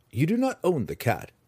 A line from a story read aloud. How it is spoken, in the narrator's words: Drizzt said calmly